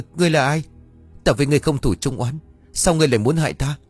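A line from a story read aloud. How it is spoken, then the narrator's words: Frightened scream. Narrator (Vietnamese): sợ hãi mà hét toáng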